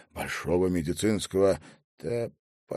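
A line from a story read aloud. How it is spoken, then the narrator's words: Quiet insistent question. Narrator (Russian): тихо, но настойчиво переспросил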